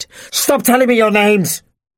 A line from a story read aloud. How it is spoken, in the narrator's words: the man screamed